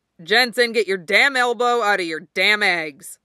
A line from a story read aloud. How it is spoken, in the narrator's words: Clay barks